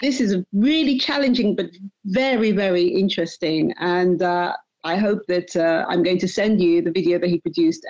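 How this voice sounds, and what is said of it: English accent. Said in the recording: “I say it with a UK accent ... I just can't get rid of that English accent.”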